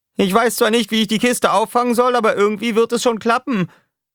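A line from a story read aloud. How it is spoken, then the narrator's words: Shouted downward. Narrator (German): schrie Roughshot nach unten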